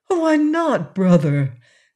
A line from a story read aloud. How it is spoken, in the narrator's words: asked Shaggy anxiously